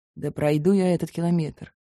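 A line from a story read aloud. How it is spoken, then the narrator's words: Grumbling. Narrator (Russian): буркнул Август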